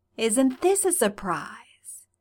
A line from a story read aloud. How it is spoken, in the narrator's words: she purred in Styles's voice